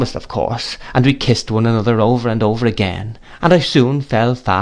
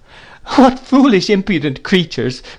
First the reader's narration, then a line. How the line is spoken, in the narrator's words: cried my mother, laughing